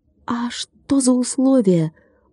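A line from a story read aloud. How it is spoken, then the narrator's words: Quick whisper. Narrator (Russian): быстро прошептал Владик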